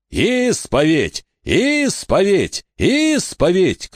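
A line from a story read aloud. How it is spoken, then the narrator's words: Shouting. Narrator (Russian): кричал Фальконер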